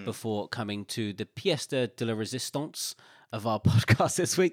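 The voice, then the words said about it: Slight put-on French accent. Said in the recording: “When you said the word tort, pièce de la résistance, and you added a little bit of an accent.”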